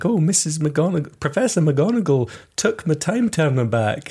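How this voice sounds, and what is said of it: Scottish accent imitating McGonagall. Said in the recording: “Why is Hermione doing a Scottish accent? ... this is what Professor McGonagall said to me in this accent.”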